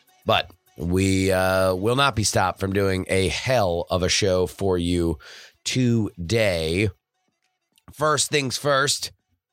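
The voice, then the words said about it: Lower, cold-affected voice. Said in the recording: “recovering from a bit of a cold. That's why the timbre of my voice is even lower than usual.”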